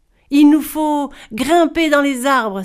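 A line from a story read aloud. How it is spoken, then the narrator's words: Exclaimed. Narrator (French): s'exclama Ogre Boy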